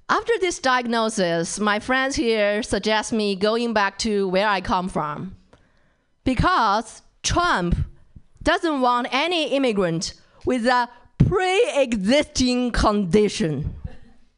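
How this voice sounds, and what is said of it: Chinese-accented English. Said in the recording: “My Chinese English accent”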